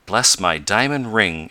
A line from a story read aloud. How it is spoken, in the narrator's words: exclaimed Mr